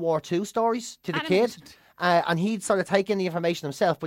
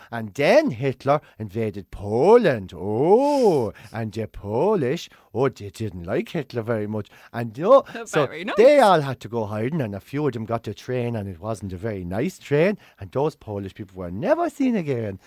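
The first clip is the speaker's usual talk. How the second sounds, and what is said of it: Childish storytelling voice, Kenyan-sounding accent. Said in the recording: “he'd make them sound childish for the kid ... just doing the voice for the kid ... You went into your Kenyan accent.”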